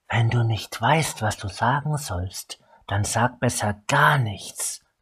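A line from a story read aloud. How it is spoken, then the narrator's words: Hissed. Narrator (German): zischte Tasri ihm zu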